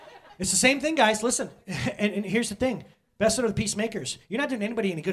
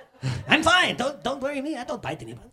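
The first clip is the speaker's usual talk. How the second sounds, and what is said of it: Put-on Mexican accent. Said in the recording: “Why do they have to have that accent, too? Oh, because they're Chihuahuas, which is from Mexico.”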